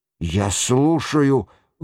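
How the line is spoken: Breathed out. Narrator (Russian): выдохнул Рояль де Боревер

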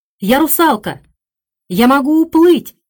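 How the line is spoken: Shout. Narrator (Russian): крикнула она

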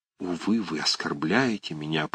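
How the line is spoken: Whispering. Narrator (Russian): прошептала Варвара Павловна

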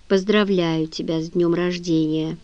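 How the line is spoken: Flat colorless voice. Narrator (Russian): Женя бесцветным голосом сказала

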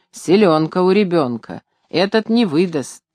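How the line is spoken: Men muttering respectfully. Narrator (Russian): мужики почтительно бормотали

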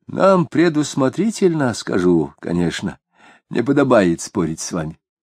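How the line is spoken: Heavy sigh, then speaking. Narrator (Russian): Осип шумно вздохнул и сказал

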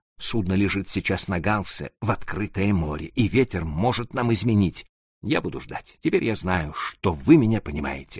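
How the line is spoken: Plain. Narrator (Russian): ответил он

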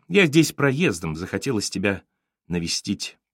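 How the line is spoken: Dry reply. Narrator (Russian): И он ответил так же сухо

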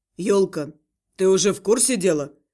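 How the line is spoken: Calmer question. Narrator (Russian): более спокойно спросил он

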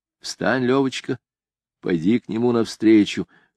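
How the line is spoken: Whispered instruction. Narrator (Russian): шепотом учил меня Моисей Филиппович

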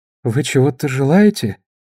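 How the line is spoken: Dejected question. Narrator (Russian): спросила она упавшим голосом

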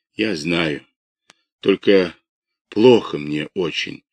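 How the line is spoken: Barely audible moan. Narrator (Russian): едва слышно простонал Кисляков

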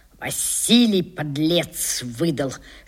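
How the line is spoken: Whispered through teeth. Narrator (Russian): шепчет он сквозь зубы

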